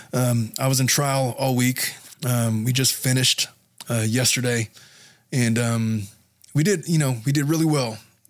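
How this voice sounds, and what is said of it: Strained, failing voice. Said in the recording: “my voice sounds funny ... my voice is starting to go”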